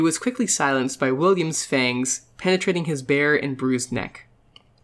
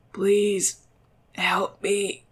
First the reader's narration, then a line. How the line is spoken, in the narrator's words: The young man seated in the chair moaned softly